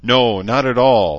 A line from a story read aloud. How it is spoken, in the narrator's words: Celine replied smoothly